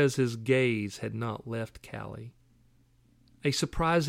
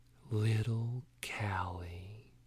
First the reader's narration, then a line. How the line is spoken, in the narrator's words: whispered